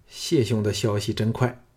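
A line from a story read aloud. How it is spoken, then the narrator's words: Flat, indifferent. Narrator (Chinese): 项少龙淡淡的说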